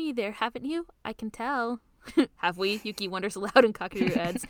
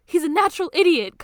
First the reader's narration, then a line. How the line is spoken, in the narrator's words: Kakeru screams